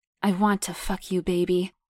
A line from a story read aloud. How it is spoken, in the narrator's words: Brett pants out